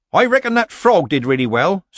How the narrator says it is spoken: said Nanny, more loudly than was necessary

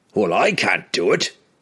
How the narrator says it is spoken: Bruner snapped suddenly

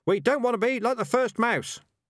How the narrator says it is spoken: shouted the rats

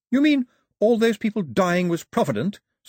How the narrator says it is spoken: said Daphne sharply

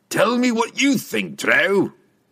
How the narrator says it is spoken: Brunner bellowed

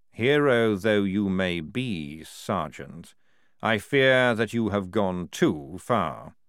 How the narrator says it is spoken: said calmly

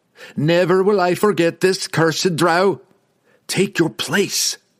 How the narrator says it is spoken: Drizzt yelled back at him from across the plains

